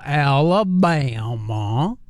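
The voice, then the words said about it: Poor Forrest Gump impression. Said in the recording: “terrible Forrest Gump impression ... trying to sound like Forrest Gump”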